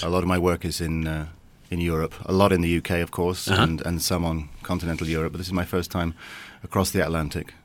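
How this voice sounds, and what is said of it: English accent. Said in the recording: “Tell by the accent ... Southampton, England”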